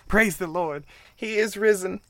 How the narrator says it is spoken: Miss Maddie screamed to the stars above

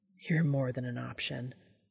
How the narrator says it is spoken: he murmured into the side of Castiel's damp cheek

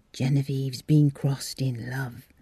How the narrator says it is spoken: said Miss Bennet in a sibilant whisper

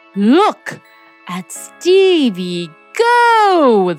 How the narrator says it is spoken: they exclaimed, their slow voices tinged with disbelief

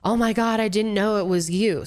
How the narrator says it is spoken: started screaming

